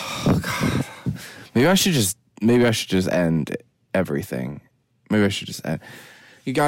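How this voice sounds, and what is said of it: Usual voice. Nothing is said of it.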